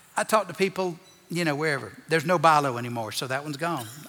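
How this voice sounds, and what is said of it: Strong, very noticeable accent. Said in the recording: “when your accent is this awful, people can hear you from rows away ... it's this awful accent. I can't hide.”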